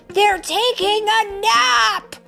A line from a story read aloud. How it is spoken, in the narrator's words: Marshall hollered